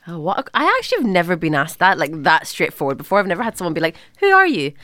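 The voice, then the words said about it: Irish accent with slight Scottish. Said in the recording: “I am Irish with a little bit of Scottish”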